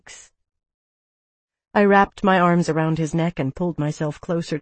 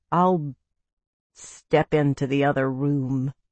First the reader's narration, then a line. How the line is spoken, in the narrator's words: she added dryly